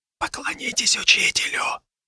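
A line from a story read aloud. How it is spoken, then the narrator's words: Young man whispering. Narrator (Russian): прошептал один из парней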